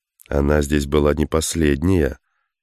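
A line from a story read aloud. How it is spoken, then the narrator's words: Gloomy. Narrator (Russian): мрачно произнес Тейнер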